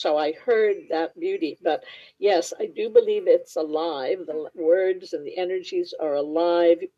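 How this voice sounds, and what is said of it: Careful, precise enunciation, slightly foreign-sounding. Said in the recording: “People have wondered, you know, if I was from another country because I have an accent, they tell me. But it's basically that I enunciate.”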